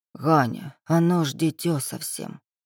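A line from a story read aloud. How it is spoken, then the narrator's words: Whispered lament. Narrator (Russian): Шепотом, чтоб дитё не услышало, причитала Тамара Васильевна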